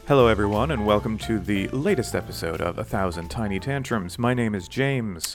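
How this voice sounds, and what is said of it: Announcer-style radio voice. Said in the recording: “welcome to my radio voice, apparently ... You have a bunch of different radio voices”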